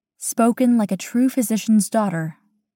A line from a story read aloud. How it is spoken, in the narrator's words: she says